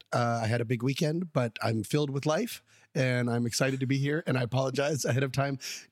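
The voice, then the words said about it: Strained, struggling voice. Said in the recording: “Avid listeners will be able to hear that my voice is struggling a little bit... I'm just slowly disintegrating.”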